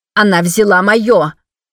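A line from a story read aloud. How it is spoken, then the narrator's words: Shouting. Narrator (Russian): кричала одна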